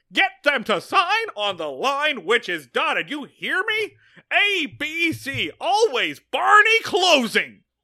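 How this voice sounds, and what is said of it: Barney Fife character impression. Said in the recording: “your Barney Fife impression ... It's pretty good.”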